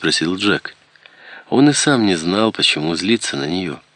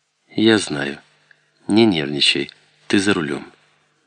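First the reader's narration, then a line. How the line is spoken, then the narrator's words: Calm. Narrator (Russian): Ребекка спокойно ответила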